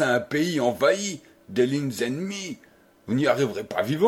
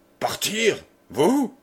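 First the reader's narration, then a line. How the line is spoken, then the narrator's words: Brother growling. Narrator (French): gronda le frère de François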